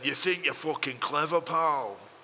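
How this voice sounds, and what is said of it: Imitates another person's voice. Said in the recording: “That was a really good Billy Connolly impression.”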